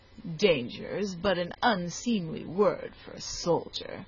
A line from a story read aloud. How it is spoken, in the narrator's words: continued the British commander with a sneer